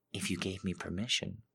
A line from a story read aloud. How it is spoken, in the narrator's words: I whisper into his ear